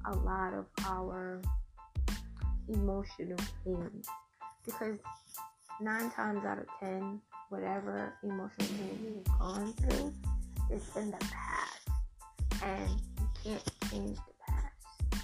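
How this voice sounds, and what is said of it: Slight accent. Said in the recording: “I know I have a little accent”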